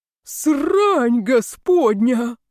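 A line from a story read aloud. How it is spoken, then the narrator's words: Father's joyful roar. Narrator (Russian): радостно взревел отец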